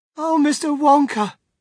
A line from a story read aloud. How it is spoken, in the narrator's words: wailed Mrs